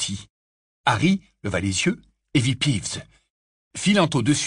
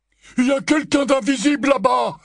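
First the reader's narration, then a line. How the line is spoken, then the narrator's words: Masked man's exclamation. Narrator (French): s'écria un mangemort masqué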